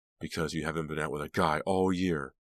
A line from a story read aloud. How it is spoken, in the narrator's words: Delia snapped